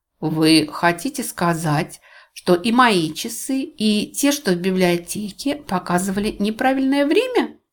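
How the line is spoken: Plain question. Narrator (Russian): спросила Луиза

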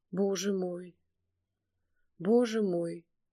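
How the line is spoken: Quiet muttering. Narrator (Russian): Время от времени тихонько бормотал он

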